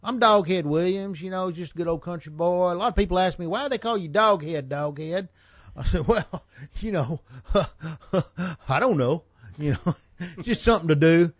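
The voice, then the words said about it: Country boy character voice. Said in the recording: “I used to do a character called Doghead Williams”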